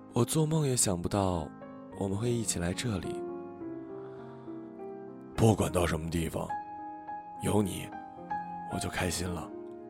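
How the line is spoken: Murmuring. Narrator (Chinese): 小五喃喃地说

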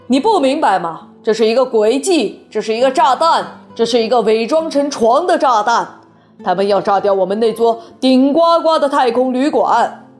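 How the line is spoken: Shouting. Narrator (Chinese): 总统大叫

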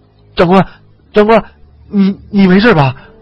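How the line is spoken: Frightened, panicked. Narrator (Chinese): 李二狗惶恐地说

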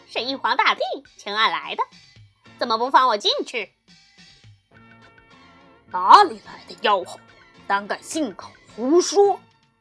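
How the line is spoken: Giggling. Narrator (Chinese): 悟空嘻嘻笑道

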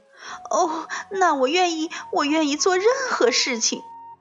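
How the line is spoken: Crying while speaking. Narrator (Chinese): 索菲亚夫人边哭边说

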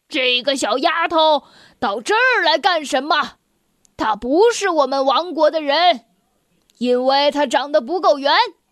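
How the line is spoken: King's roar. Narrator (Chinese): 国王大吼一声

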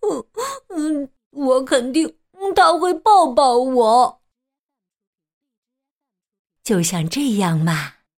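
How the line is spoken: Sobbing. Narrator (Chinese): 秋秋抽泣着说

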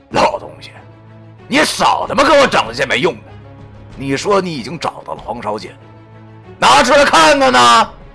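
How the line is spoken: Cold sneer. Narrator (Chinese): 那袁梅听我这么一说后，便更是冷笑一声

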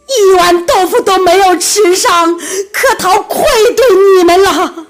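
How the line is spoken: Tearful, loud wailing. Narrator (Chinese): 柯陶眼眶立时溢满泪水，他对着山头放声嚎叫

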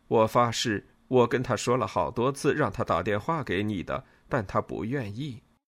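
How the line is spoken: Laughing. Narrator (Chinese): 尼诺笑着说

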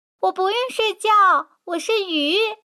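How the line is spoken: Loud shout. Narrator (Chinese): 敖飞大声叫着

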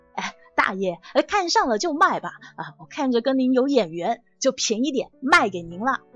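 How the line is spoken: Grinning obsequious question. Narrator (Chinese): 人贩子笑嘻嘻的，一脸奴相的问

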